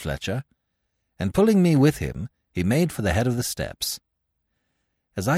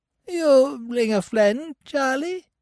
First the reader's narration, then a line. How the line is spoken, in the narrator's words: he squeaked in a thin, piping voice